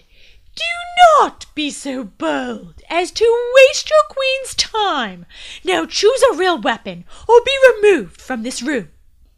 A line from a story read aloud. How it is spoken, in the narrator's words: Stunned, the queen shouted